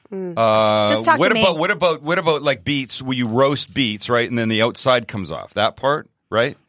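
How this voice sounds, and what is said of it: Strong Canadian accent. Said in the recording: “I just like to hear you say outside. ... I just celebrated Canada Day, so my accent is particularly strong.”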